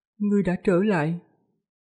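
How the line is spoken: Gentle, after pause. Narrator (Vietnamese): Một lúc sau mới nhẹ nhàng nói

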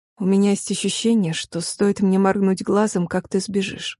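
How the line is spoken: Low warm voice. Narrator (Russian): заметил низким голосом, от которого в моей груди родилось приятное тепло

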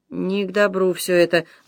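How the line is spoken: Worried muttering. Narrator (Russian): бормотал он, озабоченно

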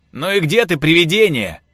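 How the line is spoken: Shouted, forcing confidence. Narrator (Russian): крикнул он, стараясь, чтобы его голос звучал как можно увереннее

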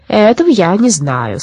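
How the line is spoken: Plain. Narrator (Russian): сказал Абрахас

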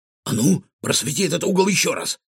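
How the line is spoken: Exclamation. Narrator (Russian): воскликнул он

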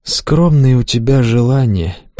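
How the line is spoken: Sad sigh. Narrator (Russian): печально вздохнула Луиза

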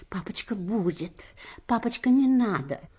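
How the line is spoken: Embarrassed whispering. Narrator (Russian): братья Ани, Петя и Андрюша, гимназисты, шептали сконфуженно

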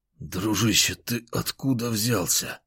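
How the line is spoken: Hoarse rasp. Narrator (Russian): прохрипел я

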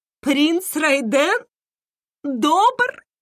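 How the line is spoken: Empress laughing again. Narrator (Russian): Императрица снова рассмеялась

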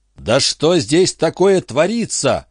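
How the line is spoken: Hysterical terrified yelling. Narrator (Russian): орал в истерике перепуганный разум

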